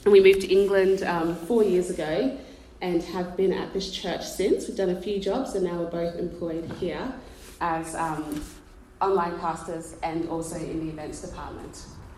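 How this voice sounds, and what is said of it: Australian accent. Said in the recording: “you can't tell by the accent, we're from Australia”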